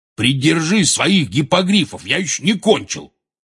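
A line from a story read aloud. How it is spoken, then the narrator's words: Barked. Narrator (Russian): рявкнул Хагрид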